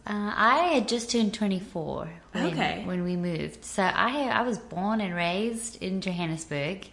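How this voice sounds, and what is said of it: Slight non-American accent. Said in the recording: “has a little bit of an accent and she is not from America originally”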